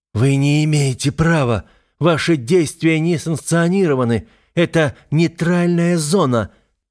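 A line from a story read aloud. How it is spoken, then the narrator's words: Yelling. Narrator (Russian): Начинает вопить Зейн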